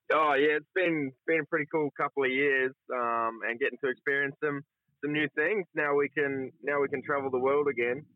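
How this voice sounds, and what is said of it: Speaks with a noticeable foreign-influenced accent. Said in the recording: “you can probably hear my accent coming out for living here”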